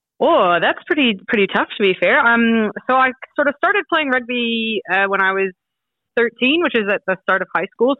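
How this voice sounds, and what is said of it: Mixed Canadian accent. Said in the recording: “back in Canada ... hence the funny accent ... a lot of Canadians now don't think I sound Canadian anymore ... I've just fallen into a bit of a gray area”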